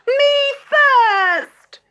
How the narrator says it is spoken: wailed Gertrude

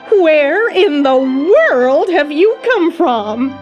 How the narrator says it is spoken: Aunt Em cried

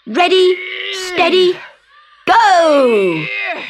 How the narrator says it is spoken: the children shouted

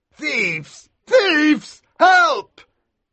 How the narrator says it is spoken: Aldebrand screamed

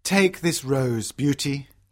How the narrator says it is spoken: he says sadly

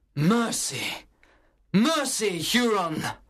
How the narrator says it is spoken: cried Major Hayward, who had seen the horror

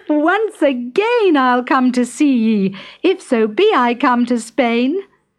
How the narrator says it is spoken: Molly only laughed and called back

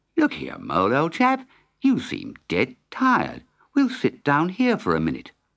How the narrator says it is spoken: Rat said kindly

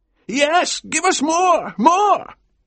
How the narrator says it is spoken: cried Mr

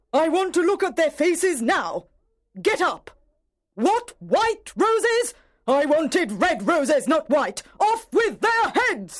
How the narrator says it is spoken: shouted the angry Queen

